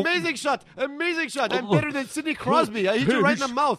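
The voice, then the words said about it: Weird, vaguely British-sounding accent. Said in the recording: “are you like British? You got like a weird accent, man. ... my accent is very, very international.”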